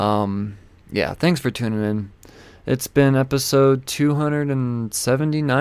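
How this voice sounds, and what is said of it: Usual voice. Nothing is said of it.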